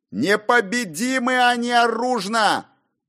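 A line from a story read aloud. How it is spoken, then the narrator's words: Very loud yell. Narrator (Russian): Завопил проповедник так громко, что прохожие стали оглядываться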